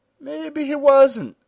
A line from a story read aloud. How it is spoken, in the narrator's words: said the giant in a cooing voice